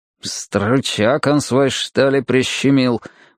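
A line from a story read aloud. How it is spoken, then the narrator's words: Gruff muttering. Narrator (Russian): буркнул Стемпер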